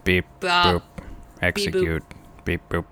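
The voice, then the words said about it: Robot voice. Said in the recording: “do your best robot voice”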